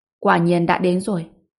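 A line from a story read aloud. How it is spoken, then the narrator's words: Cold laughing. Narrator (Vietnamese): Ngô Bình cười lạnh lùng và nói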